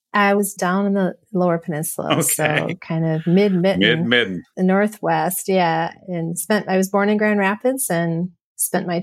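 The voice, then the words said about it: North Central US accent. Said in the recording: “I do hear a little bit of North Central U.S. in your accent”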